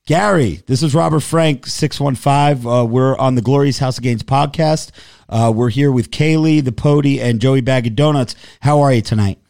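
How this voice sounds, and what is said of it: Hoarse, strained voice. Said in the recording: “my voice is gone”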